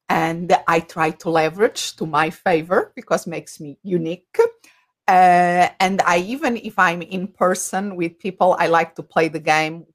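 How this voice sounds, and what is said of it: Noticeable foreign accent. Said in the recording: “if people are wondering about my accent, that is the first thing that comes across”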